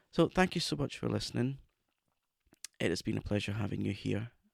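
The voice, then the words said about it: Raspy, hoarse voice. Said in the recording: “raspy horrible throat situation”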